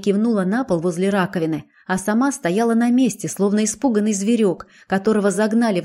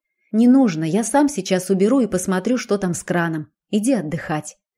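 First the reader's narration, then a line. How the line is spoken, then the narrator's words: Even, level voice. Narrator (Russian): ответил я ровным голосом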